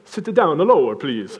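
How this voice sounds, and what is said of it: Attempted Italian accent. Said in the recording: “how do you do an Italian accent? ... That's the best I got. Greg's the man for accents”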